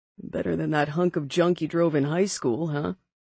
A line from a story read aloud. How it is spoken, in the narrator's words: I chuckled